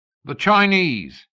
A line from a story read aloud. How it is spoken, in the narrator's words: bellowed a drunken Australian